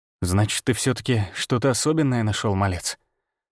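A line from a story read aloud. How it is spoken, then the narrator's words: Muttered. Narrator (Russian): Пробормотал я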